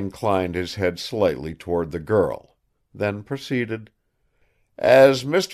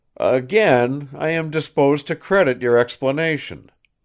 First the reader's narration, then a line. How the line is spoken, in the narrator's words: boomed the colonel